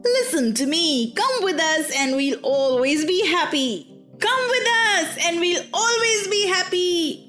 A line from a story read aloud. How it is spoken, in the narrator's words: shouted the 100 boys from the coach all together